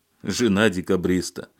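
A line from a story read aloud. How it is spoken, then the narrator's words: Sighing. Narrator (Russian): вздохнул Алексей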